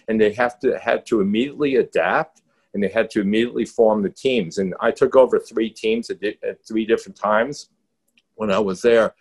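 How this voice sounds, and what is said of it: Strong New York accent. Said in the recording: “I'm from New York ... I have a very strong accent that never left me”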